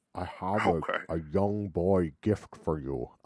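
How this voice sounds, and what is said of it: Imitates another person's voice, underbite. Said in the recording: “Let me try to put my lip up underneath. Let me try to give myself an underbite... I'm going into Sean Connery like you do... You end up doing a Sean Connery accent.”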